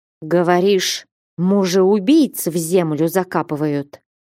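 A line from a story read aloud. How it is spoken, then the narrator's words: Hissing like a snake. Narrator (Russian): Как змея зашипела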